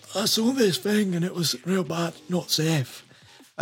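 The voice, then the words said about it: Poor imitation of a Scottish accent. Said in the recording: “this Scotsman ... That's probably a terrible accent. That's literally what he sounded like ... I don't know what accent that was. Terrible accent.”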